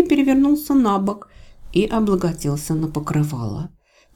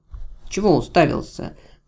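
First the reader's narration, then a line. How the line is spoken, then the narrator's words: Grumbled mutter. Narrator (Russian): буркнула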